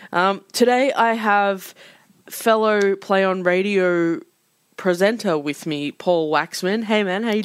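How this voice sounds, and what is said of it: Sick-sounding voice. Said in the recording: “If you can't tell by my voice, I have been sick”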